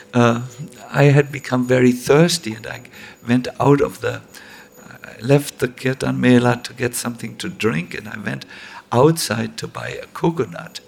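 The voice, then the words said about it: German accent. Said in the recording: “my melodious German accent”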